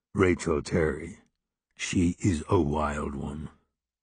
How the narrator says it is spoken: Henry's voice rumbled

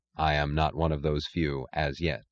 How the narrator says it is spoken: said Dagny

